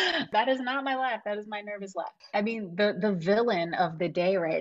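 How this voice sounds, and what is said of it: Usual voice. Nothing is said of it.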